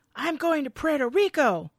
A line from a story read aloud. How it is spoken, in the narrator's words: He's yelling at Benny